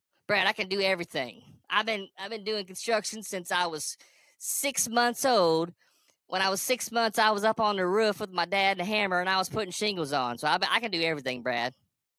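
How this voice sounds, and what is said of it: Ridiculous mocking character voice. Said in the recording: “I do that voice ... that's how ridiculous some of you sound”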